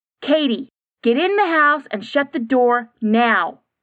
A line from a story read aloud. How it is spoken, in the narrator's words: mother yelled from the car